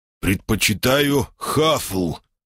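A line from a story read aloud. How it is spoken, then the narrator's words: Angry growl. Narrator (Russian): едва сдержав желание приложить собеседника в челюсть, рыкнул я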